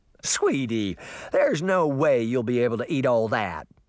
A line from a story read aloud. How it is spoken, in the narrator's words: Farah laughed